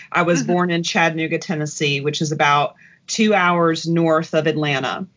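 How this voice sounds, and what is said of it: Southern US accent. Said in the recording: “as you can tell from my accent, I am a native Southerner”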